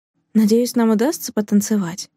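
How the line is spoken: Said quietly. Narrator (Russian): тихо проговорила Каролина

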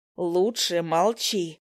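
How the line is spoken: Growled. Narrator (Russian): прорычала я

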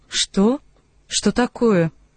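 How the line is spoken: Gloomy. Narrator (Russian): она мрачно произнесла

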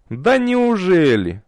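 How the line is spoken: Mocking snort. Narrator (Russian): насмешливо фыркнул Светлый

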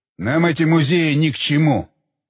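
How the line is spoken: Grumbling. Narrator (Russian): проворчал он

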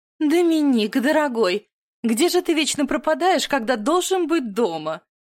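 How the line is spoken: Overly theatrical exclamation. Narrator (Russian): Излишне театрально воскликнула мать

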